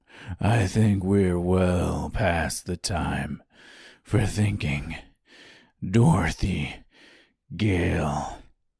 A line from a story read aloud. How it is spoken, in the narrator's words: came the low rumbling drawl of the Tin Woodman